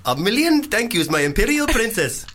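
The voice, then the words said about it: Put-on Indian accent. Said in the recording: “Do another one. Indian.”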